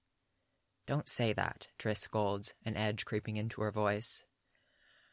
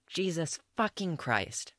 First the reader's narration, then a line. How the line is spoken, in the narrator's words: Renfrey snaps